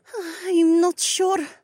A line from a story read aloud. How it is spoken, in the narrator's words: the alien said nervously